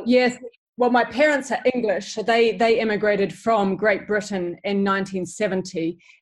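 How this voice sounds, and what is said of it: New Zealand accent. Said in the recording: “I love your accent. So you are originally from New Zealand”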